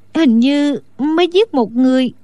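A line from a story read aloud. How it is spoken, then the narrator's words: Trembling voice. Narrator (Vietnamese): Đinh Đan run rẩy nói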